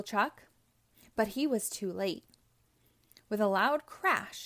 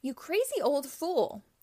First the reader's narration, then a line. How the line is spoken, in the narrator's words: shouted Robotnik